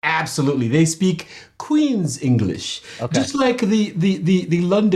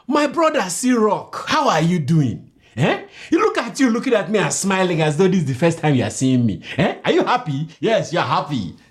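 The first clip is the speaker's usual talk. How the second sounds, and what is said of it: Put-on Nigerian accent. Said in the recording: “let me show you a Nigerian accent right now so you know that I'm authentic ... it reminds me of Jamaican a little bit ... It's like patois.”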